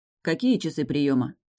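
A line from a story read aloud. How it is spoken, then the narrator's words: Plain. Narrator (Russian): спросил Деян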